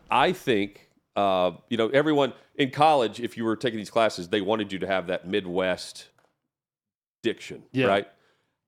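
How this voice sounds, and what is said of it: Slight Southern American accent. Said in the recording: “I can hear a little bit of a Southern accent with you”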